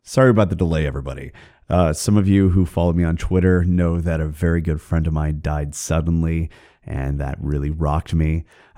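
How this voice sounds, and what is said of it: Hoarse, craggy sick voice. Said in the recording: “some kind of horrible respiratory illness ... definitely gumming up my voice ... forgive my voice if it sounds a little bit craggy”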